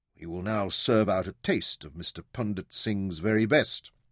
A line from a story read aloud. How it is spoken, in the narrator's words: murmured